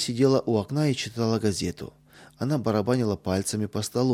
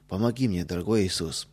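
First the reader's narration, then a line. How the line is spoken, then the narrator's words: Whisper. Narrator (Russian): прошептал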